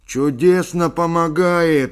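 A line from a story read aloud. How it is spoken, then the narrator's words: Exclaimed, Irish accent. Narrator (Russian): воскликнул ирландец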